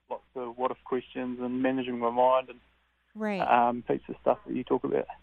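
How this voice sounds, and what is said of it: Thick accent. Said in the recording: “That's a thick accent there.”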